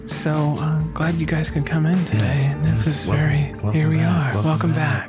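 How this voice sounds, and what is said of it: NPR-style public radio voice. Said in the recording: “NPR voice”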